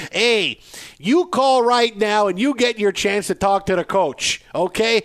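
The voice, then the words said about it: Put-on Chicago accent. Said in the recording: “you want me to affect an accent to fit in better? Yeah, I'm in Chicago. I do it.”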